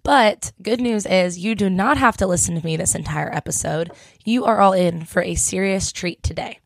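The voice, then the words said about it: Hoarse, congested voice from a cold. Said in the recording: “excuse my voice because I have a little bit of a summer cold”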